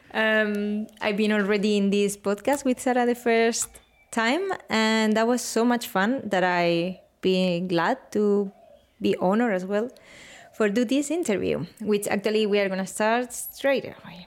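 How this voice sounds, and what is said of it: Strong Spanish accent. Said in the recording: “this pretty strong Spanish accent”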